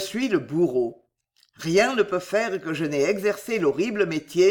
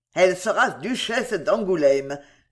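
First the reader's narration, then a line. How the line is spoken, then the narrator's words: Sudden laugh. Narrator (French): fit-il tout à coup en riant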